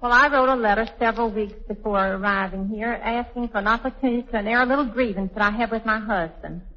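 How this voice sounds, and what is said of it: Southern American accent. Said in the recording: “your lovely southern accent.”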